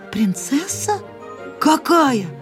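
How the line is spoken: Confused hunchback mumbling. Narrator (Russian): растерянно пробормотал Горбун

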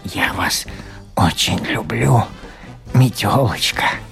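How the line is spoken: Eager whisper, little shoe. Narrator (Russian): Даже Алёнушкин башмачок не утерпел, шепнул метелочке

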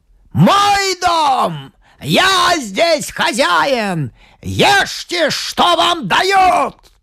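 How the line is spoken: Booming shout. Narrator (Russian): Зычным голосом он крикнул

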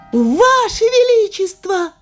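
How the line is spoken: Washerwoman shouting. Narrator (Russian): закричала прачка

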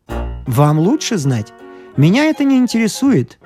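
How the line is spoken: Soft reply. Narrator (Russian): мягко ответил Икай

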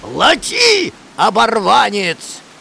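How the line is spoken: Shouting. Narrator (Russian): закричал он

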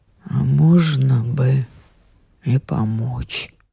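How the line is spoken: Muffled through clenched teeth. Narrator (Russian): сквозь стиснутые зубы глухо вырвалось

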